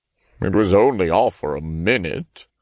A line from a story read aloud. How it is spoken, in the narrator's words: he muttered like a kicked puppy